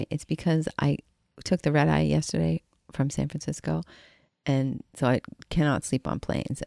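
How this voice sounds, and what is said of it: Froggy, rough morning voice. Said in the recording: “my voice is a little froggy this morning”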